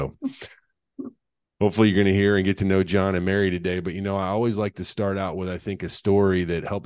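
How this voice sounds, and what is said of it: Usual voice. Nothing is said of it.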